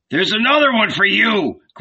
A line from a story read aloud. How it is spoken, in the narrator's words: growled Zebedee in a rage